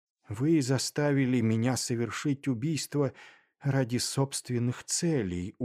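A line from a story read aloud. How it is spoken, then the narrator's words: Dejected, horrified. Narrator (Russian): уныло произнес я, ужаснувшись жестокости этого человека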